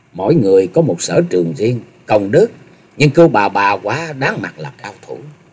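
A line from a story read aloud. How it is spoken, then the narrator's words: Very low, wry. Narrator (Vietnamese): Ngao Trường Thanh hơi nhép mép cười, rồi hạ giọng thật thấp nói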